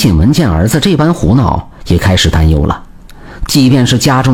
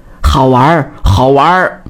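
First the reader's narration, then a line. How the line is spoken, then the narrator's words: Laughing, clamoring. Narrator (Chinese): 李赖子拍手大笑，直嚷叫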